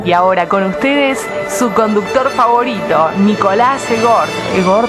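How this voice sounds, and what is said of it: Exaggerated radio announcer voice. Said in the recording (Spanish): “poné toda la voz de locutora, bien... Así, bien AM.”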